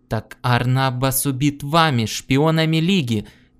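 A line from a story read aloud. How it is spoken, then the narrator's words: Shout. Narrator (Russian): крикнул Гордон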